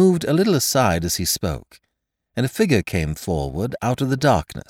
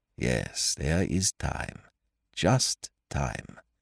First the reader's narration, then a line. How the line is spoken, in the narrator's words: He murmured to himself